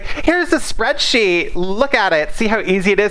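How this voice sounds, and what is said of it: Stereotyped gay-coded character voice. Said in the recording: “I do my gay voice”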